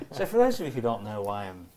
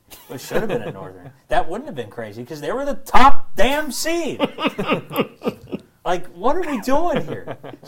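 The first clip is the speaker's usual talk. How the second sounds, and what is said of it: Raised, exasperated voice. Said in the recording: “raising my voice”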